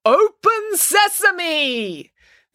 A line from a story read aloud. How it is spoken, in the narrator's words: Their leader called out the words